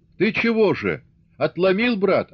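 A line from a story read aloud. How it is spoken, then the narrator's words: Shout. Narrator (Russian): крикнул Астахов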